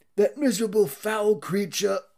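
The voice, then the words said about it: Poor impression of William Regal's accent. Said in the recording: “I cannot do his accent.”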